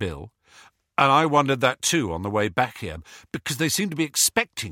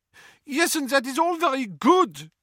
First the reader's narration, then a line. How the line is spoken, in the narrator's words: snapped Fleur